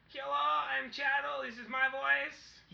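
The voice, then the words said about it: Character voice. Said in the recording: “I do his voice all the time”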